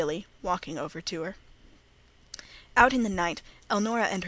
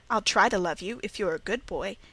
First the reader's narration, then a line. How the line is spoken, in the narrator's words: said Margaret